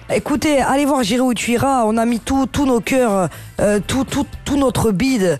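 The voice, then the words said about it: Put-on southern French accent. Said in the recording (French): “L'accent du sud, s'il te plaît ... il y en a un qu'elle tient”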